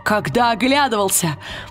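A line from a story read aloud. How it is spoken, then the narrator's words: Exclamation. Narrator (Russian): воскликнул он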